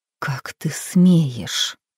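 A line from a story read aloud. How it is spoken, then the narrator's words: Hissing. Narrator (Russian): прошипела она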